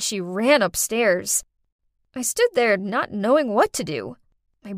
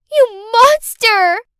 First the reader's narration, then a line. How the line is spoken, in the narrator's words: Clarice shouted